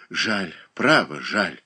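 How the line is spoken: Sigh. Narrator (Russian): вздохнул Иван Воин

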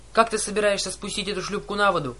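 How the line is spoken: Shouted. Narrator (Russian): крикнула Аннабет

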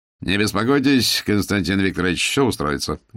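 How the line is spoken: Cheerful, brisk, general. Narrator (Russian): бодро сказал Воронину генерал

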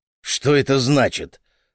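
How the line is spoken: Angry question, father. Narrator (Russian): зло спросил отец

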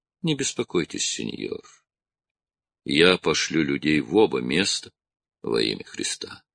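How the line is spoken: Gentle, reassuring. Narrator (Russian): видя, насколько глубока тревога Строна, он мягко добавил

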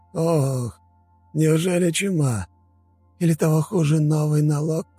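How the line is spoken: Sorrowful sigh. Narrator (Russian): Корнут горестно вздохнул

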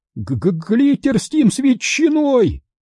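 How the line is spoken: Shouted. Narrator (Russian): прокричал Таб

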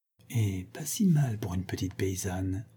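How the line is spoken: Said quietly. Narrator (French): dit-elle tout bas

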